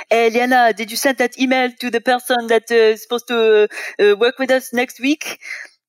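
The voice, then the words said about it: Put-on French accent. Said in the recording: “It makes me want to do my own French accent ... You have to like shake your head while you do it ... it was good. Actually, I'm actually impressed by your.”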